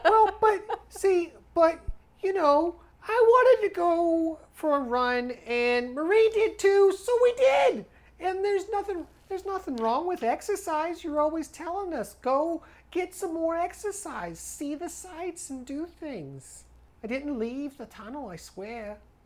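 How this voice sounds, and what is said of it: Little kid character voice, accented. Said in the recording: “This little kid's accent is killing me.”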